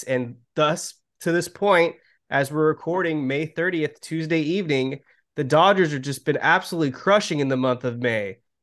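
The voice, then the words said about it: Very upbeat, joyous voice. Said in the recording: “if my voice sounds very upbeat and joyous right now”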